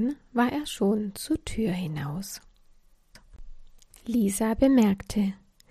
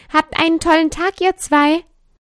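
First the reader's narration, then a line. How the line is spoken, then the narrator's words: Calling out while leaving. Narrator (German): rief beim Hinausgehen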